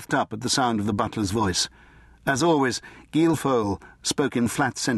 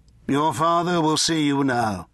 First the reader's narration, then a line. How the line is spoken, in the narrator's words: Gilfoyle intoned